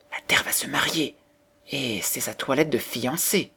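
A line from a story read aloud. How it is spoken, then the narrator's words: Whispered, turtledoves. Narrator (French): se dirent tout bas les tourterelles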